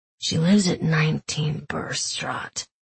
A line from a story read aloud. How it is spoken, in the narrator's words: Kaz said in his gravelly rasp